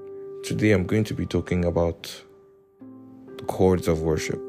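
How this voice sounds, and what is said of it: Voice sounds different from usual. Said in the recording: “my voice sounds different. I've probably been I've I have probably been shouting quite a lot earlier.”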